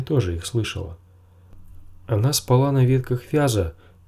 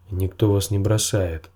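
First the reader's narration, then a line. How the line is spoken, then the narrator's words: Grumbled. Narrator (Russian): проворчал Джендри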